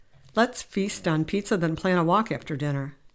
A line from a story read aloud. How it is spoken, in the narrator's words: David said